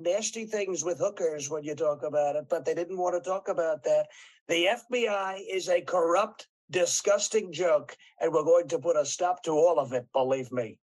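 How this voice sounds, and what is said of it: Donald Trump impression. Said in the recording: “He does a slightly better impression of Trump than you do.”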